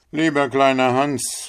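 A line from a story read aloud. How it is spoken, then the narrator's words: Miller calling out. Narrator (German): rief der Müller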